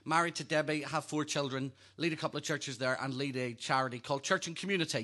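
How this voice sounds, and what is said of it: Northern Irish accent. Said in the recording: “You better get used to this accent... Originally from Northern Ireland”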